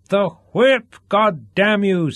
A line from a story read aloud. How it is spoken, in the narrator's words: screamed Duff